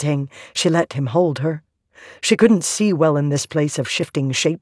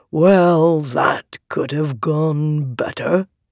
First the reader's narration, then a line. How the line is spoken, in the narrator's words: he said, his voice thrumming with a rhythm